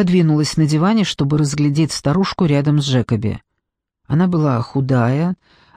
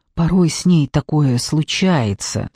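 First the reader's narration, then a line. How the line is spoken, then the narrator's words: Explained almost whispering. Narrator (Russian): объяснила Мона почти шепотом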